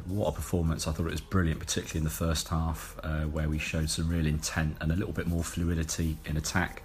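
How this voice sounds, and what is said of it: Hoarse voice. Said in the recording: “I'm still a bit hoarse from yesterday.”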